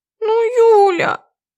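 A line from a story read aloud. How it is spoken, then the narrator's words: Whining. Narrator (Russian): начинает хныкать Аня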